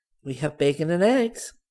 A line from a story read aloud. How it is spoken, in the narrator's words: said happily